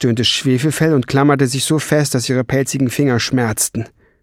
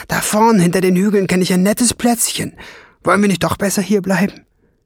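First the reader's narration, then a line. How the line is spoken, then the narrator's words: Calling out. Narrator (German): rief sie dem Drachen zu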